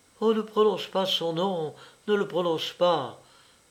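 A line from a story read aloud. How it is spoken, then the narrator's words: Hurried stammer. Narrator (French): balbutia-t-elle précipitamment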